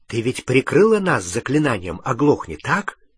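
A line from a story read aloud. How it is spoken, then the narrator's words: Whisper. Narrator (Russian): прошептал он Гермионе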